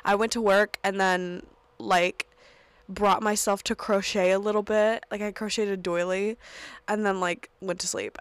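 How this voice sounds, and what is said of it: Voice sounds unwell, under the weather. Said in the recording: “I felt like crap. And I'm sure you can still kind of hear it in my voice”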